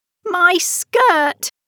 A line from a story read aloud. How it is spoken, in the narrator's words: she cried